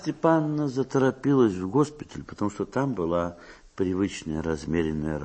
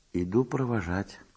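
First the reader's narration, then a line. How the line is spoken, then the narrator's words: Quiet. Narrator (Russian): тихо сказал Марья Степановна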